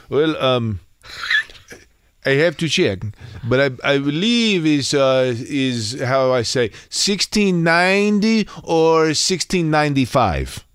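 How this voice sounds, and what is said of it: Attempted Flemish accent. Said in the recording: “He had an accent for sure. ... Well, I can't do the Flemish accent. ... You're a man of accents.”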